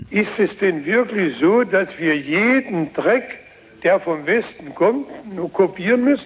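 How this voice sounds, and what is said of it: German regional dialect. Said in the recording (German): “dieser sexy Dialekt, der gehört natürlich zu Walter Ulbricht”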